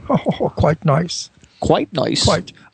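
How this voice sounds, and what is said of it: Forced, fake-sounding put-on English accent. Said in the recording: “a rather nice English accent, I think. But now it's a bit corny and fake. Absolutely. And forced... actually, I sound Irish”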